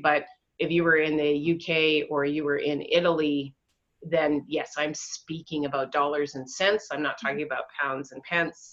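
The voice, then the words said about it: North American accent. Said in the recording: “My accent would say I've got to be somewhere in North America.”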